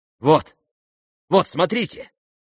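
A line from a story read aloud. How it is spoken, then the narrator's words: Shout. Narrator (Russian): крикнул Евгений Павлович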